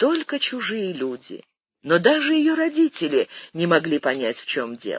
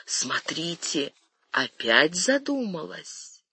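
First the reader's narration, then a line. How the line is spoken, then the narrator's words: Servants whispering together. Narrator (Russian): Слуги начинали шептаться между собой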